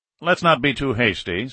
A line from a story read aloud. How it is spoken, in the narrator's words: said a third